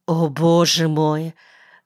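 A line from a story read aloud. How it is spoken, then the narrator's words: Spoken, then relieved sigh. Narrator (Russian): произнесла и вздохнула уже свободно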